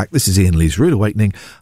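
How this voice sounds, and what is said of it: Put-on sexy voice. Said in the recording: “I'm doing my sexy voice”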